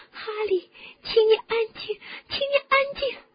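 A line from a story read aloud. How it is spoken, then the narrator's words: Sobbing. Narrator (Chinese): 霍敏抽泣着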